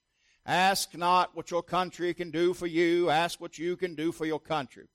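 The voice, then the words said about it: JFK impression, admittedly bad. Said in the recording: “Terrible JFK impersonation.”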